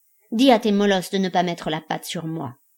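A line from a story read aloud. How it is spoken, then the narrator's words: Growl. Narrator (French): gronda Titania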